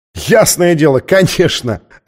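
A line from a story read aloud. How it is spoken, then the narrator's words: Laughing out loud. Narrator (Russian): расхохотался он, уверенный, что она шутит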